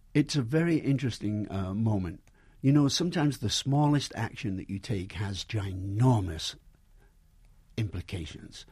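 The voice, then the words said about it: English accent with American tinge. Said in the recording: “Have I lost my accent? ... when I go back home to England, they think I talk like a Yank.”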